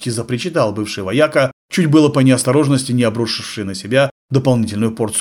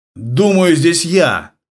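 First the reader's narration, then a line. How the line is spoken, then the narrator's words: Barked. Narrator (Russian): рявкнул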